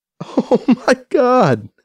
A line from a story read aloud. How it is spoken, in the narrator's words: has to stifle a laugh